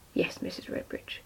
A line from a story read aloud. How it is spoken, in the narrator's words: muttered Danny